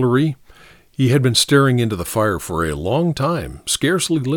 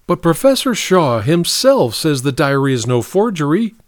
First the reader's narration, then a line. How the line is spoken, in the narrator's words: cried Martha Clark